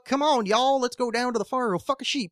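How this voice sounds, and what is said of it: Put-on Southern American hillbilly accent. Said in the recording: “Like that Southern, like, hee-hook, you know, that accent, the hee-haw”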